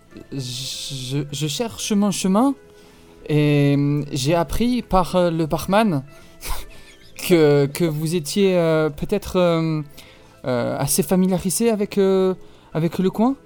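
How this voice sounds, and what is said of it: French with a strong German accent. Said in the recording (French): “Elle a un accent allemand très prononcé.”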